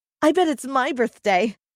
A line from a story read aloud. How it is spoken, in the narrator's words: announced excitedly